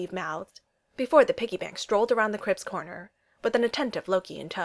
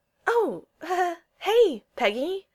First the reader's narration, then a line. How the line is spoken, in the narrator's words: Steve stammered